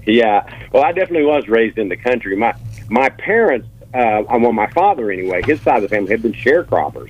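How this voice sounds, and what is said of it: Brooklyn-sounding accent. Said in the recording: “with your accent, I'm surprised that you were raised in the country and not Brooklyn”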